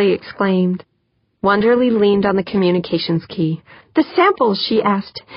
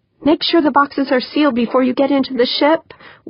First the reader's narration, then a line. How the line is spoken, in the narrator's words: Wonderly pleaded